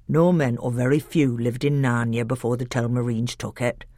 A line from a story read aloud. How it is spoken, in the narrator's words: said Dr